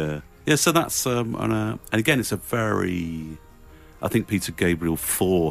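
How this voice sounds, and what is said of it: Usual voice. Nothing is said of it.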